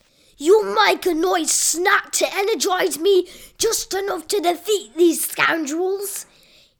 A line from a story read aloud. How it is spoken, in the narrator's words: he yelled